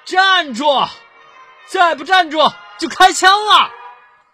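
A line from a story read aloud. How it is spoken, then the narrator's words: Shouting hard. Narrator (Chinese): 鬼子使劲喊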